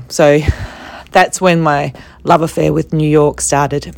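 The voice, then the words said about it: Voice going hoarse, strained. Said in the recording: “I'm losing my voice.”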